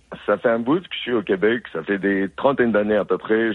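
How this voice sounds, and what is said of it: Foreign accent in French. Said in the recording (French): “histoire qu'on entende votre accent ... il faut quand même traverser l'Atlantique pour aller dans votre pays d'origine”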